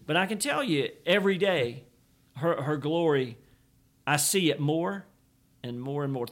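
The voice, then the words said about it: Emphatic preacher-style delivery. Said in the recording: “I'm almost in my preacher voice”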